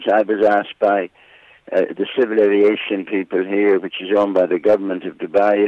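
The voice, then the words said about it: Irish accent. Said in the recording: “still hanging on to your Irish accent”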